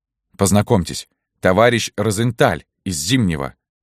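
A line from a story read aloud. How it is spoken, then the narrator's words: Plain. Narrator (Russian): сказал Поплеян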